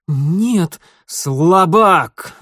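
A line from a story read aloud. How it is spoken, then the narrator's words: Roaring shadow. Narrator (Russian): взревела тень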